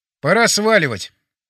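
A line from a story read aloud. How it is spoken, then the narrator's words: Loud. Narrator (Russian): сказал я громко, чтобы услышал батя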